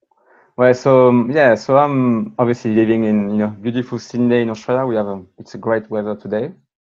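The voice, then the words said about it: French accent. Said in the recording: “the French accent”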